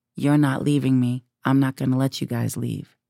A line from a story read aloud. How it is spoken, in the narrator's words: he said very calmly